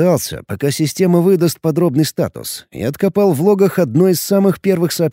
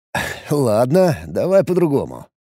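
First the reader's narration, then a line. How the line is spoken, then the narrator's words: Wry snort. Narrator (Russian): хмыкнул я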